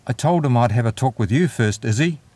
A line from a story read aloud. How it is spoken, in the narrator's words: Gregor finally managed to blurt out